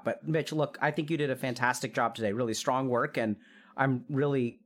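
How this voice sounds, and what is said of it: Weak, failing voice. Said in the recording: “my voice is really going out”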